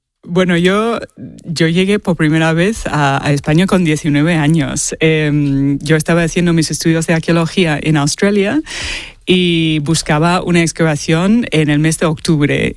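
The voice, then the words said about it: Australian accent speaking Spanish. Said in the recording (Spanish): “tienes un acento australiano ... el acento es de Sydney. No me lo voy a quitar nunca.”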